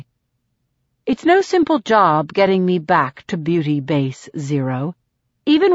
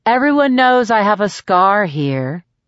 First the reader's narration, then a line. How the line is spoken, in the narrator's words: I say sullenly